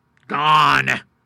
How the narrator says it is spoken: growled the rough with the deep rasping intonation of a savage

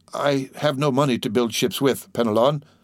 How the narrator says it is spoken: said the poor owner mournfully

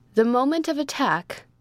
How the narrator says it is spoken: cried the Baron

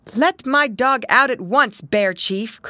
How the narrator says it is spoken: cried he

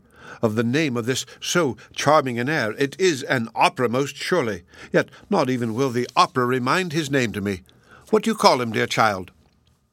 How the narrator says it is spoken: exclaimed

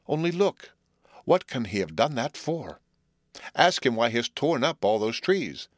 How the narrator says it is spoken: exclaimed the youth

